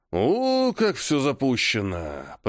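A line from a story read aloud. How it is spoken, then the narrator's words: Creaky old voice. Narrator (Russian): проскрипел Мальцев-старший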